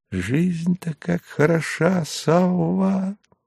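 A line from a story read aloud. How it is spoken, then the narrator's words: Disarming smiling whisper. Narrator (Russian): обезоруживающе улыбнулся Станиславский шепнул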